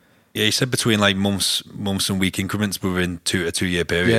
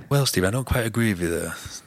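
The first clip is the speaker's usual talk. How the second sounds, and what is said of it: Imitates another person's voice. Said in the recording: “my Sam Harris impression ... He sounds like that, doesn't he?”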